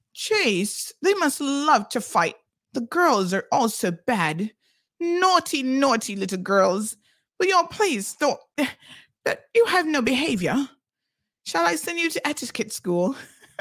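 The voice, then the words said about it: Put-on English accent, poorly done. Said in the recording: “I'm going to pretend to be you in your English accent now... did I do your accent any justice, or was that absolutely atrocious and horrible? Probably atrocious and horrible.”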